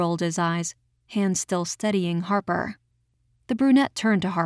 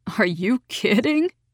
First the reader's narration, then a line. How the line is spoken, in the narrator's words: The deputy laughed